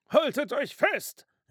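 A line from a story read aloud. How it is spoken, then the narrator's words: Called out. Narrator (German): rief einer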